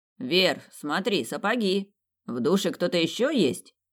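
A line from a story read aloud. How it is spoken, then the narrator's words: Sudden loud outburst. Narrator (Russian): Раздалось громко и неожиданно, словно удар грома посреди ночи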